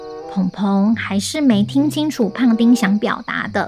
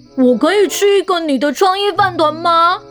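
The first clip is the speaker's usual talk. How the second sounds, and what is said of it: Loud shouted line. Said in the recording (Chinese): “胖丁终于大声喊出来，声音大到全班同学都抬头看”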